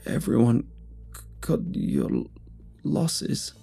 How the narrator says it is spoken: the man sputtered through sobs

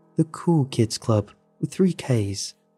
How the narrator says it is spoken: Trevor giggled

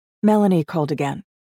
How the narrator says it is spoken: said, her voice flat

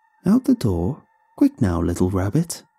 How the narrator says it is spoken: cooed

